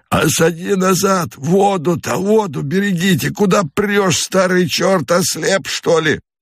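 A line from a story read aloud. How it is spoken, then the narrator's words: Hoarse shout. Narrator (Russian): Всадник, провожающий обоз, кричит хриплым голосом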